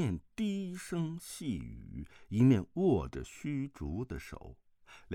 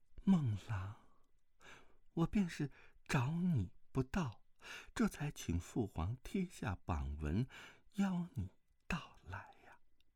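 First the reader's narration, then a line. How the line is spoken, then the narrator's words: Familiar voice whispering. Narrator (Chinese): 一个熟悉的声音在他耳边悄声道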